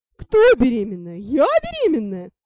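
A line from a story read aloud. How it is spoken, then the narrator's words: Loud laughing. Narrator (Russian): Девка захохотала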